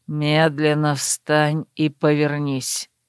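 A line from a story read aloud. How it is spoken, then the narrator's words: Quiet command. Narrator (Russian): негромко приказал Верт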